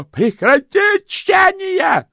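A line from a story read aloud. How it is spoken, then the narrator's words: Yelled. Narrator (Russian): заорал Сдушкомс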